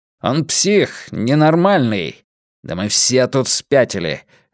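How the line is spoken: Sharp. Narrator (Russian): резко добавил Филипп

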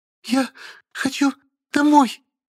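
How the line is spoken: Faltering, tearful voice. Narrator (Russian): прерывающимся голосом изрекла Белозерова, а после разрыдалась

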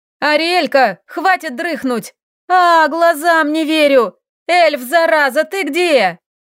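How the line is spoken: Shouted. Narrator (Russian): прокричала

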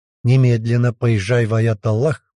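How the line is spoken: Angry command. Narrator (Russian): приказал Джабраиль, зло сверкая глазами

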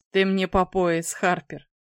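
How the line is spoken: Interjected, laughing. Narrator (Russian): вставил Роберт и засмеялся

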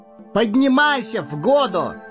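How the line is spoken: Ringing shout. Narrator (Russian): звонко выкрикнул Пипин

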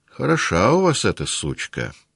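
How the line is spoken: Casual tone. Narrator (Russian): сказал он небрежным тоном

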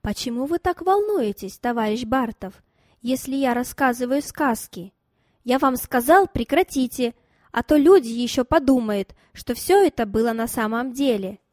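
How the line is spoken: Calm question. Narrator (Russian): Она же спокойно спросила

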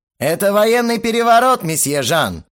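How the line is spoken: Threatening shout. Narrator (Russian): угрожающим тоном прокричал я

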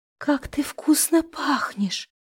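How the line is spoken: Whisper. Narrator (Russian): прошептала мучительница

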